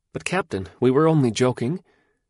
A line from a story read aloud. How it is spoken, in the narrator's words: his men were cowed, and one said timidly